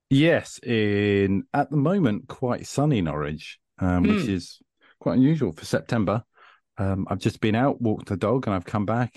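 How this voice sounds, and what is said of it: UK accent. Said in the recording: “the UK accent”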